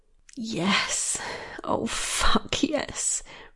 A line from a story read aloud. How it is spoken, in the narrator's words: breathed Michaela